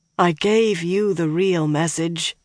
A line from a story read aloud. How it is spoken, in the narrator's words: the woman said wearily